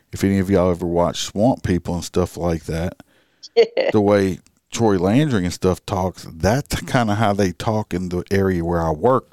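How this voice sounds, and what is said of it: American country accent. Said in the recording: “I have more of a country accent”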